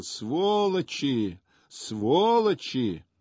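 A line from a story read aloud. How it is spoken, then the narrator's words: Long drawn-out shouting. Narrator (Russian): протяжно кричал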